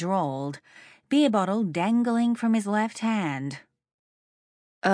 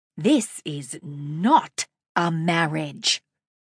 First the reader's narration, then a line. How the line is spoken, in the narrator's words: I spat